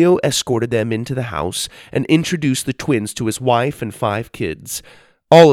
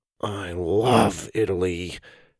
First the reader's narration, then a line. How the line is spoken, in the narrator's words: mumbled under his breath